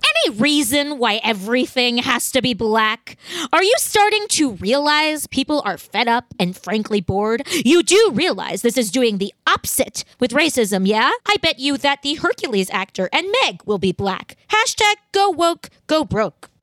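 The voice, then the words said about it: Mocking Karen voice. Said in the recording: “Do your most Karen voice that you can do.”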